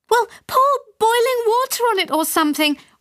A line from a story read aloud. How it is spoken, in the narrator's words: wailed my mother